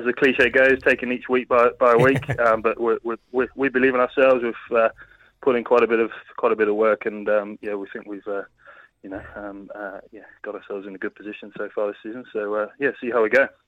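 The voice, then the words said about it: English accent. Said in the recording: “I can tell by your accent you are English.”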